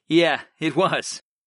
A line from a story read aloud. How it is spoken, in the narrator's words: I chuckled